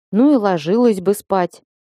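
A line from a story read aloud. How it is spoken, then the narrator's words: Grumbling dragon. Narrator (Russian): проворчал дракон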